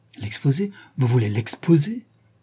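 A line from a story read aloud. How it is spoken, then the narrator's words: Exclaimed in strange dread. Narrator (French): s'exclama Dorian Gray envahi d'un étrange effroi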